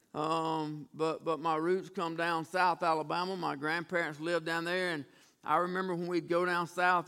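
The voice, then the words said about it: Southern US country accent. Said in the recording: “We grew up country as turnip greens ... People ask me if I'm from Georgia or Alabama. You just can't hide that old accent”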